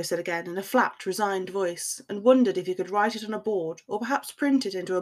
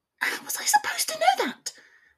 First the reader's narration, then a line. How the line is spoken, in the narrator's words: She said in a shrill tone